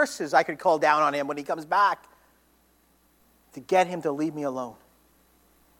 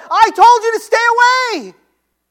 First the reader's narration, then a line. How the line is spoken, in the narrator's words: I yelled